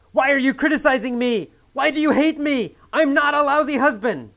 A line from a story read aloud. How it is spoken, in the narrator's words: He yells